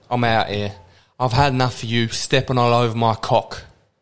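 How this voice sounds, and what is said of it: Put-on Cockney accent. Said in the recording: “Your Cockney accent”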